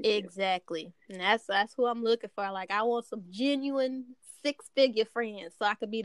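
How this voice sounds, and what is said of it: Texas accent. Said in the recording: “I love your accent. ... I love the the Texas swing.”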